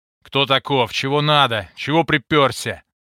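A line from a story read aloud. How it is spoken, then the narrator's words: Growled. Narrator (Russian): прорычал вахмистр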